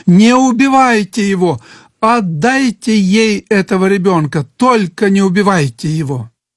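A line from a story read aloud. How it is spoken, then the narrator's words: Desperate mother screaming. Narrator (Russian): женщина, которая была настоящей матерью ребенка, закричала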